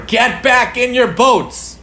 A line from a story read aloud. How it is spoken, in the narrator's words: supervising counselor started yelling